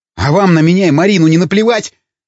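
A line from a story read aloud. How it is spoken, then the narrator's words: Barking. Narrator (Russian): рявкнул Ломака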